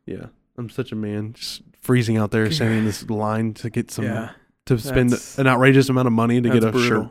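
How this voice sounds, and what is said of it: Stuffy, congested voice. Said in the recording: “That's why you're stuffy right now.”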